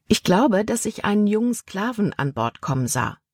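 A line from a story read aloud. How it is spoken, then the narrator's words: Plain. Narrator (German): antwortete Libby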